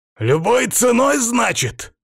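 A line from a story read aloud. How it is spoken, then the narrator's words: Shouting, near fury. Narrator (Russian): прокричал, пребывая на грани бешенства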